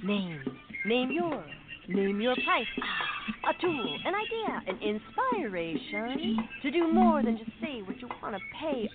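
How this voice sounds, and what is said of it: Imitates a beat poet. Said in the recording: “my impression of a beat poet”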